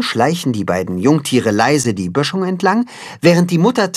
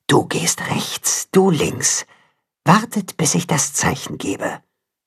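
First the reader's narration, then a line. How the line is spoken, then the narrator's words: Whispering mother wolf. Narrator (German): die Wolfsmutter flüstern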